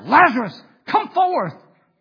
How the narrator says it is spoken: Jesus cried out

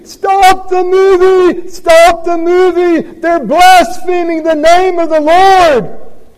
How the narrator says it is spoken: screaming

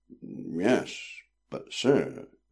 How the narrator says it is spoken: he said slowly

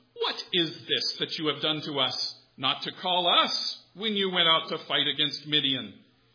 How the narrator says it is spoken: they accused him fiercely

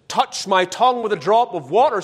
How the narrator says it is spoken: he cried of thirst

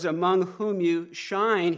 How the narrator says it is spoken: he says

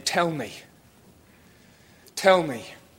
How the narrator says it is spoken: out of guilt, shame, and fear, convicted and convinced, he cries out

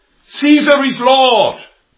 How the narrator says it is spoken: They had to shout

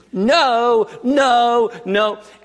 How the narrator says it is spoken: the woman sitting right on the across the aisle from me started screaming

